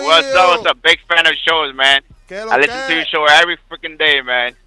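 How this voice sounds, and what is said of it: Dominican accent. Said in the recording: “What you, Dominican? I hear an accent in there.”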